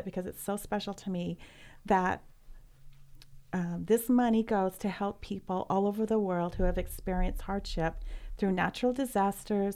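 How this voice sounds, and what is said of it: Choked-up emotional voice. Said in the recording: “get choked up talking about it”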